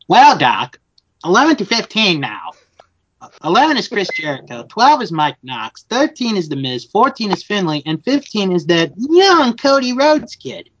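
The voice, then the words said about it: Bugs Bunny cartoon voice impression. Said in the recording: “your best Bugs Bunny impression”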